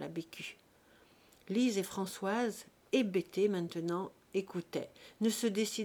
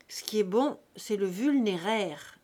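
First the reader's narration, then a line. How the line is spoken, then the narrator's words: Plain. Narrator (French): dit la Frima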